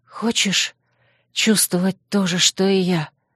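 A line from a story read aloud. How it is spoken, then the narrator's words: Languid hoarse whisper. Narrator (Russian): Мой хриплый шепот прозвучал томно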